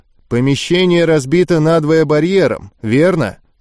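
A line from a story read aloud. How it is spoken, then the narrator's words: Dry question. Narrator (Russian): сухо спросил Гольф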